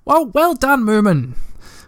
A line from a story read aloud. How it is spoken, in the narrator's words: she cried